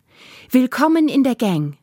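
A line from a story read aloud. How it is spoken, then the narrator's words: Calling out. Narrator (German): rief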